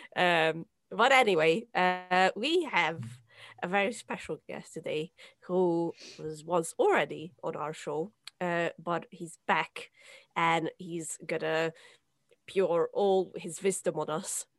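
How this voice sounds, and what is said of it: Rusty, hoarse voice. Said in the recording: “I feel like Phoebe from Friends when she was sick and she had that really nice rusty voice... That's me today.”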